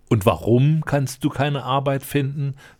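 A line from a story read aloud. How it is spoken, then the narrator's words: Plain question. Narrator (German): fragte der Prinz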